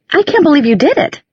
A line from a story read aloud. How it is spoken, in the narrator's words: she exclaimed